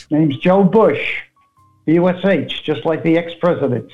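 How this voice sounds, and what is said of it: New York accent, elderly man. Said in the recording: “born in Brooklyn, New York, and raised in Queens, as you can tell by his accent”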